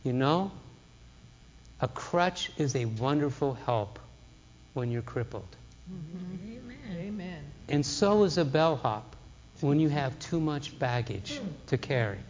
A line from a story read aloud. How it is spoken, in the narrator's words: She just gently said